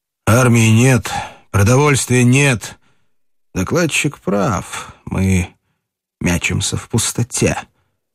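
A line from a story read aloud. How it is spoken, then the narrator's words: Slightly muffled voice. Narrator (Russian): проговорил глуховатым голосом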